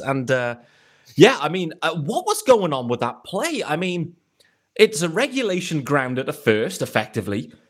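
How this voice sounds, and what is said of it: British accent. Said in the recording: “where's this accent from? I'm in the UK”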